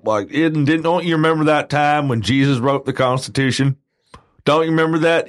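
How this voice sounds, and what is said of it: Exaggerated stereotypical Southern US accent. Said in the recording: “that quote unquote stereotypical southern accent ... has ... an accent. Okay. from the southern United States.”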